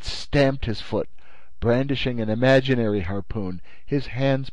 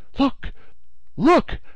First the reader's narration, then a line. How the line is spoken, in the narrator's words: the Canadian exclaimed, his voice full of excitement